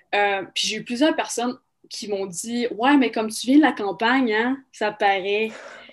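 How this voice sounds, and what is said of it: Rural Québécois accent, Lac-Saint-Jean. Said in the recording (French): “mon accent sonne québécois. Mais dans le Québec, mon accent est extrêmement rural. Mon accent sonne du lac Saint-Jean”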